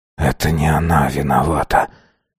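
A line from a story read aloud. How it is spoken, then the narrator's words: Emotionless whisper. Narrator (Russian): прошептал Азар, утратив абсолютно все эмоции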